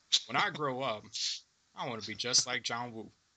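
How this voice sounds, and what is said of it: Bad put-on accent. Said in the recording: “that's actually a bad accent. ... That's a bad accent.”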